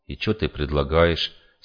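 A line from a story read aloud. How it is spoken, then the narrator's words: Forced calm question. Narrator (Russian): спросил я спокойно, как мог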